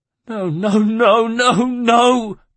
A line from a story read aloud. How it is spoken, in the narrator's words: cried Claudia